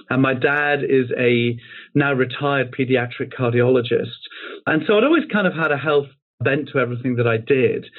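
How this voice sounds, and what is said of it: British English accent. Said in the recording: “as you can tell from the accent, in the UK”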